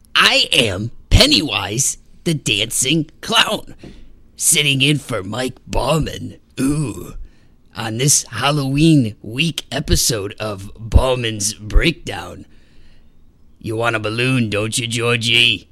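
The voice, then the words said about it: Creepy clown character voice. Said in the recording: “that was a little creepy ... it wasn't a bad impression of it, was it? ... Pennywise”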